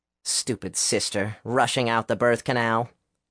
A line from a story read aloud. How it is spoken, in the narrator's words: Will grumbled